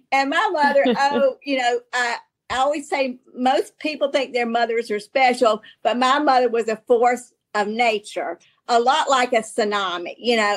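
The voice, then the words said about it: Southern American accent. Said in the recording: “your Southern accent ... what's wrong with my accent?”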